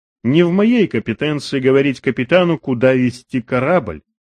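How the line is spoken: Formal tone. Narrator (Russian): ответил Уолтер официальным тоном

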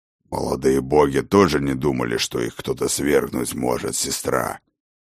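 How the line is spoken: Growled. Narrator (Russian): прорычал Ракот

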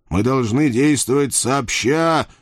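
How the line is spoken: Growled. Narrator (Russian): зарычал я

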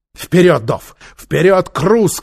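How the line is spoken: Shout. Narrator (Russian): крикнул Нефер

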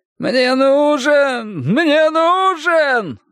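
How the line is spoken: Wailing, yearning. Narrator (Russian): вопил он с неизбежной негритянской тоской в голосе

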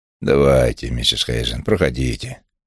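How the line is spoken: Growl. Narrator (Russian): прорычал у нее за спиной Стеббинс

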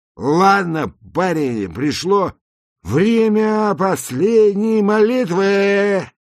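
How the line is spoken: Very loud, headphone-style. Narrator (Russian): сказал он очень громко, как поступают все люди в наушниках

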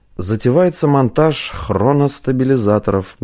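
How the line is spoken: Gruff mutter. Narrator (Russian): буркнул Златков

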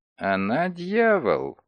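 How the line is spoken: Muttered through teeth, French. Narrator (Russian): процедил он сквозь зубы по-французски

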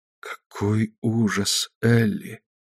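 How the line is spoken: Whisper. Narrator (Russian): прошептала Мэри

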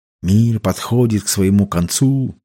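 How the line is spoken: Muttered. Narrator (Russian): пробормотал Билли

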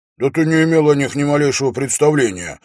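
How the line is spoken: Exclaiming. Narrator (Russian): воскликнул он

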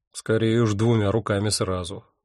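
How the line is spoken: Grumbled. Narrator (Russian): буркнул я

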